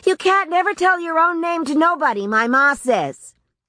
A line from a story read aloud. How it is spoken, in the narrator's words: shouted a fat, quick boy